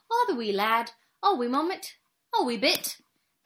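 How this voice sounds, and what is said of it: Attempted Scottish accent. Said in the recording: “Can you do a Scottish accent? ... No, but I have the makings of it”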